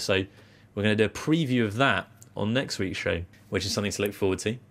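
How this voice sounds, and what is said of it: British accent. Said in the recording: “He noticed that I had a British accent”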